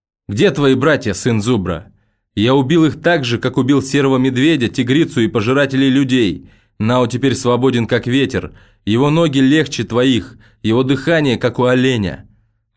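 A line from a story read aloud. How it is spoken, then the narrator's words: Shouting. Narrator (Russian): он крикнул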